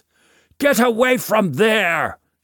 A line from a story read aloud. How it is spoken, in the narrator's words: shouts Voke